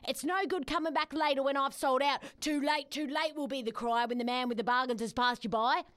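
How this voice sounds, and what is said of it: Lock Stock market trader accent. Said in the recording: “I like the accent ... Is it Lockstock?”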